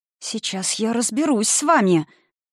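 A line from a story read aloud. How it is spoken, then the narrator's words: Vengeful hiss. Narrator (Russian): Мстительно, словно обращалась не к шторам, а к разумному существу, прошипела Заня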